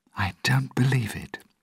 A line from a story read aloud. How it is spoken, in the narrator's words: said quietly